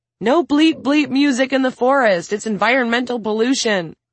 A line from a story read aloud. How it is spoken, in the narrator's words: Maya giggled as she held the phone out of reach and yelled